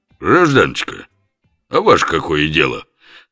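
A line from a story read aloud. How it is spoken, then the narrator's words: Deliberately rude. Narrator (Russian): Нарочито грубо развернулся Лев Оболенский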